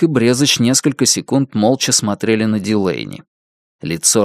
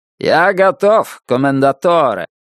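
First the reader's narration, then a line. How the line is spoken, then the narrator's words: Loud declaration. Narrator (Russian): громко заявил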